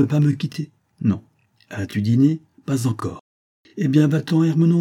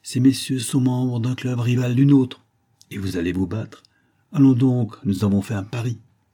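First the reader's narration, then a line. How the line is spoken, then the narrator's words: Coaxing tone. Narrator (French): dit Paul d'un ton câlin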